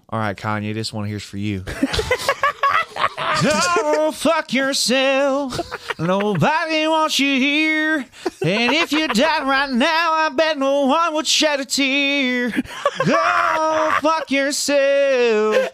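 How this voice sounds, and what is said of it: Sung in a country drawl. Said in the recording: “can you sing it in a country accent this time? ... Give me some drawl.”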